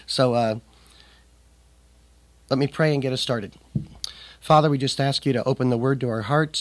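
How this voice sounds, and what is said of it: Slightly impaired, unwell voice. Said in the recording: “my voice isn't 100%”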